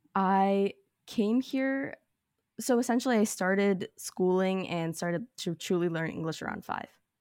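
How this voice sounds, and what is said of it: American accent. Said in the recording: “your accent sounds typically American to me”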